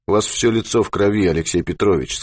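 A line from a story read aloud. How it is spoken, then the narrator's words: Plain. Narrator (Russian): сказал Ермаков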